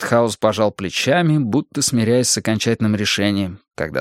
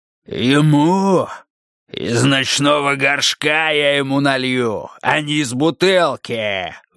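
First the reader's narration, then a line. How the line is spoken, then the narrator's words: Roaring. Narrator (Russian): взревел Скелли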